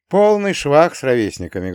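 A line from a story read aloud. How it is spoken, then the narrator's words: Sad sigh. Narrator (Russian): грустно вздохнул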